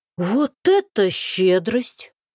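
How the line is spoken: Exaggeratedly naive drawl. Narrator (Russian): Подчеркнуто простодушно протянул Гришин

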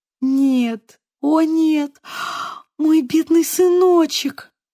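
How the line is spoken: Sobbing, grief-stricken. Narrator (Russian): Она зарыдала

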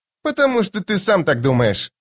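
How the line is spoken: Snapped. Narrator (Russian): огрызнулась Скалла

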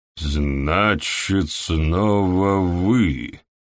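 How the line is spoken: Drawling. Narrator (Russian): протянул Уоррен

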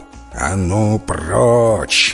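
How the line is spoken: Growling. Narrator (Russian): зарычал

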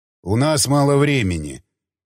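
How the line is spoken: Bored voice. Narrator (Russian): скучным голосом сказал неизвестный

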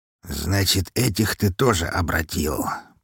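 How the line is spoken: Mutter. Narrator (Russian): пробормотал он

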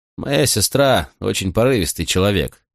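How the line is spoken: Gloomy. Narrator (Russian): сказал он мрачно

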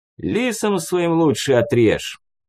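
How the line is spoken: Irritated snort, small man. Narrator (Russian): Раздраженно фыркнул в ответ мужичок

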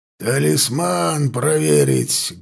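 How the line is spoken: Barked shout. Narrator (Russian): гаркнул

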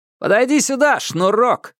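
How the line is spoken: Rough shout. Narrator (Russian): крикнул он грубо

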